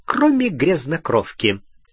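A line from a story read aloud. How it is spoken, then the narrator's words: Gleeful snort. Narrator (Russian): Сивый радостно хмыкнул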